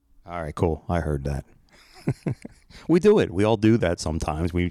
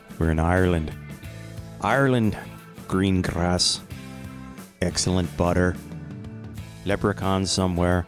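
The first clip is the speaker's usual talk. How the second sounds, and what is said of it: Put-on Irish accent. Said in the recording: “I have no idea why I'm talking like this ... your best Irish imitation”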